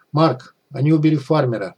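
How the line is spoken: Shout. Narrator (Russian): крикнул

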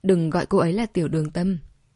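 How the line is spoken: Cold reminder. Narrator (Vietnamese): Đường Vực không phản bác, chỉ lạnh lùng nhắc nhở

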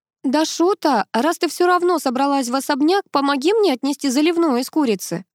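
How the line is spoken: Distant shout from inside. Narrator (Russian): закричала из глубины дома Марина

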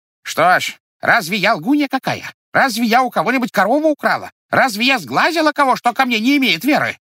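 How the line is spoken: Woman shouting. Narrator (Russian): кричала баба

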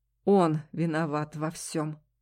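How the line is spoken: Sudden, through gritted teeth. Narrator (Russian): вдруг сквозь зубы процедил юноша

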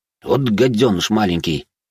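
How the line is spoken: Muttering under breath. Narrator (Russian): пробурчал себе под нос

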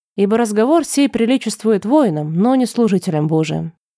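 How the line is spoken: Sigh. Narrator (Russian): вздохнул растянец

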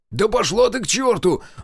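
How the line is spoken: Yelling. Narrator (Russian): заорал Жигалов

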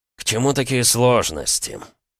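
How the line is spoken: Weary grimacing tone. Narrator (Russian): устало поморщился князь

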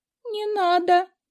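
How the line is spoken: Frightened squeak. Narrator (Russian): пискнула потенциальная жертва лицезрения садоводческого инструмента, потому что вспомнила, где именно слышала о некроманте

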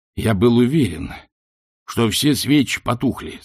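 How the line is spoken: Plain. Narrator (Russian): сказал он

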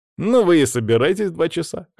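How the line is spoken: Snorted. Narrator (Russian): хмыкнул Федя

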